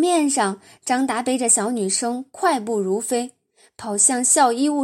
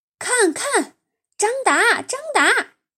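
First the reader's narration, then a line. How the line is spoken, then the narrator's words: Crowd shouting together. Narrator (Chinese): 全班同学喊成一片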